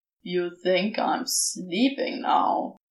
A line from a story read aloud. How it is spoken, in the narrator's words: Crowley growled